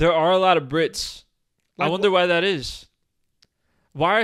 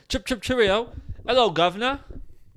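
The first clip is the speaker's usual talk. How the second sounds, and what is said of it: Clumsy put-on British accent. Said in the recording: “I'm not an accent guy. Like, I'm not good at accents.”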